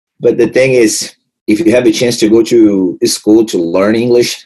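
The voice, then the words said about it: Strong Brazilian accent in English. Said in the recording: “Very broke English. The Brazilians, most of the Brazilians have a really hard time. Like, I have a strong accent, being improved a lot.”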